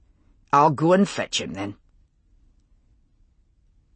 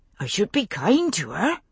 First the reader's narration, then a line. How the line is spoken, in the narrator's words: Bobby said anxiously